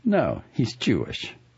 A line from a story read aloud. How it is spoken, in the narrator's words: said coldly